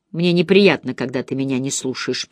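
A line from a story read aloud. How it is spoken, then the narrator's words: Grumbling. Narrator (Russian): проворчала Черри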